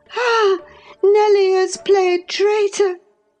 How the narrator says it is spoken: she exclaimed passionately

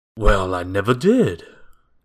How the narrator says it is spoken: exclaimed the teacher

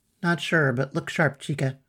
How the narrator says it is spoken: murmured

